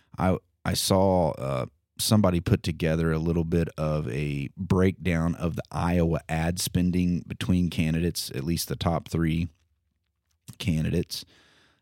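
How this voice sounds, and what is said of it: Hoarse, croaky voice. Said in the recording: “Pardon my voice,... I've had a little frog in the old throat”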